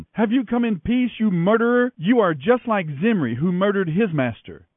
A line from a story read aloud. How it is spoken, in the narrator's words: she shouted at him